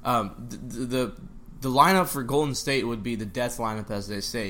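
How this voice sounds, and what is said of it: Strained voice, losing his voice. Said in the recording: “losing my voice”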